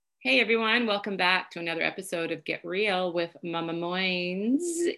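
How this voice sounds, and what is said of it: Hoarse, croaky voice. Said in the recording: “all of a sudden I have a frog in my throat”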